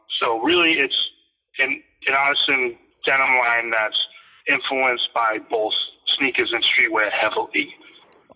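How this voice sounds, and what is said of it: Boston accent. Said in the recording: “My accent. ... It's Boston, born and raised.”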